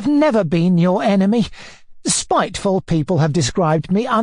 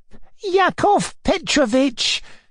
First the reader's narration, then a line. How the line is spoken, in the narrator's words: he cried miserably